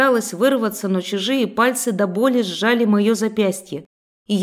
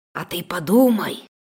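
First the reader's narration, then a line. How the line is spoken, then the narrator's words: Sinister whisper. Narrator (Russian): послышался зловещий шепот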